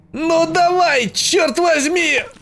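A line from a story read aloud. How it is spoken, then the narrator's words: Shouted. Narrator (Russian): закричал он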